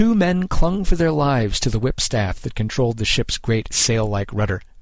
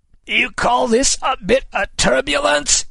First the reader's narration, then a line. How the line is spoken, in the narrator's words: Kid shouted in Sexton's ear